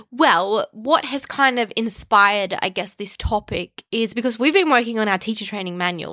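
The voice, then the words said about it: Nasal, congested voice. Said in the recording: “I'm still a bit nasally ... you can hear it in her voice ... nasal voice”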